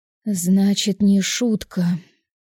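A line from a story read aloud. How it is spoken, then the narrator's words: Heavy sigh. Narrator (Russian): Тяжело вздохнула я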